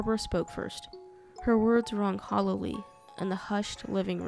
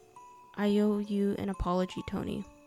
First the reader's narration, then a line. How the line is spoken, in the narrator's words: said